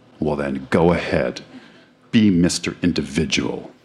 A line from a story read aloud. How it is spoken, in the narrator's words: answered Fell coldly